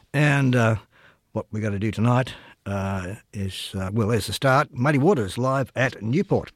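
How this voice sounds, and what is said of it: Croaky, hoarse voice. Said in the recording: “excuse the voice, if it sounds a bit croaky. Well, that's because it is... I'm just on the tail end of a throat, nose throat”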